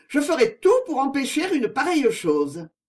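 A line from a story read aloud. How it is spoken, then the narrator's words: Exclaimed. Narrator (French): s'écria mademoiselle Constance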